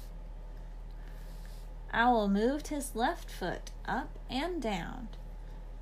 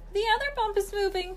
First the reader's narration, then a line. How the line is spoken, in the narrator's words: cried Owl